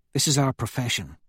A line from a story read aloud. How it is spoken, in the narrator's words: she says quietly to me